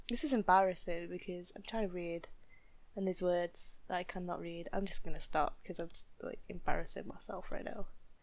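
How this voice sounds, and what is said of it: Northern English accent. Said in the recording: “Obviously, I have an accent... when I moved from my home in the north to the south of England... "Oh, what is that accent you have? Oh, are you from the north?"”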